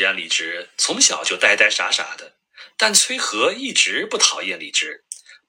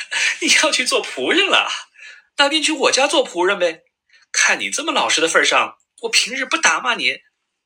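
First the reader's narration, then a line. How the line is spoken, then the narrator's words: Carefree giggling. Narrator (Chinese): 崔和听到这话，没心没肺的乐得咯咯笑，说道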